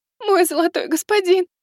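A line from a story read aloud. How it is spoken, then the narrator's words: Tearful complaint. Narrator (Russian): Плачущим голосом пожаловалась Астелла, с нескрываемым страхом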